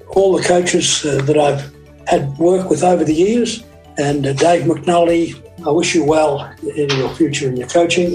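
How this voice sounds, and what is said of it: Australian accent. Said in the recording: “I love listening to the Australian accent.”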